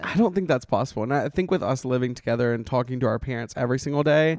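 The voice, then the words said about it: Slight Southern American twang. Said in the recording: “we sound different ... we do have a little Southern twang to us”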